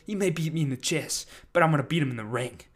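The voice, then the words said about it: Put-on accent imitating someone. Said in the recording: “I don't know why I'm doing this accent.”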